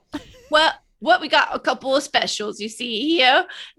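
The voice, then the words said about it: Put-on British accent. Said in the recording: “British accents”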